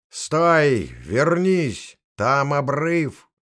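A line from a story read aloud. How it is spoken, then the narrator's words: Shouted after someone. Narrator (Russian): закричал он ей вслед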